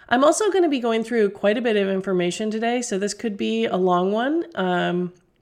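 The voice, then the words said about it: Voice roughened by illness. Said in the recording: “I am actually recovering from a cold ... my voice might not be as nice to listen to as normal”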